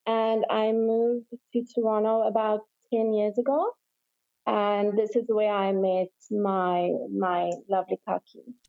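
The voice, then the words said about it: South African accent. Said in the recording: “obviously you have an accent ... I'm South African”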